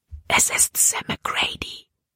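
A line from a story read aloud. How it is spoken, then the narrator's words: Whisper. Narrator (German): flüsterte sie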